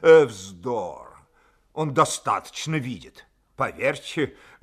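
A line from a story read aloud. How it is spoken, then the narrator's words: Deep fast voice, coughing. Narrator (Russian): сказал князь Василий своим басистым быстрым голосом с покашливанием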